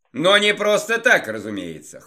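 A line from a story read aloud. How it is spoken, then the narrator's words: Wry snort. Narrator (Russian): хмыкнул я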